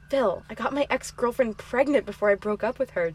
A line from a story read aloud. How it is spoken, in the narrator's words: Dan said softly